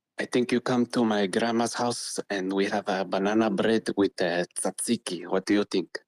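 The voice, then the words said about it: Put-on Greek accent. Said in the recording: “Why are you having, like, a Greek accent”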